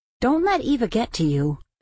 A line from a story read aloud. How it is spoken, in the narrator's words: Felix sighed